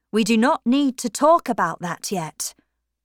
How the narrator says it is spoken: said Tom sternly

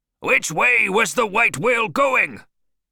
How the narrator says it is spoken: Ahab shouted

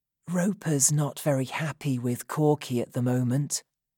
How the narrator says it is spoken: Jed whispered to Jonathan

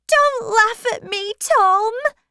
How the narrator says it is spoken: she cried

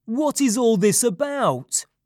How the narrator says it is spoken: said in a loud voice

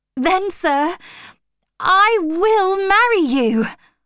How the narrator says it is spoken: cried

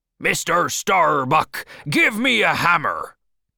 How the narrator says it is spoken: He shouted to the first mate

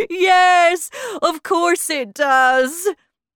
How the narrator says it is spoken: he said, and he laughed

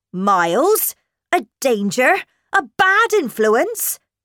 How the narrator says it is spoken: cried

